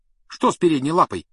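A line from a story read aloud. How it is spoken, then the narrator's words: Sharp question. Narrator (Russian): резко спросил Рон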